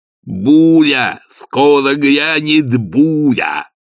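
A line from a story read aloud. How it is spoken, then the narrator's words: Shout. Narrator (Russian): крикнул Игорь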